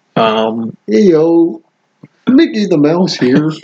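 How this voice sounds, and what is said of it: Kermit the Frog-like voice. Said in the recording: “did a Kermit the Frog impression, but said she was Mickey the Mouse ... she did it almost as Kermit”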